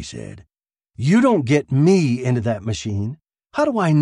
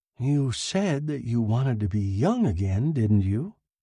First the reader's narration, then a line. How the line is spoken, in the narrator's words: He said softly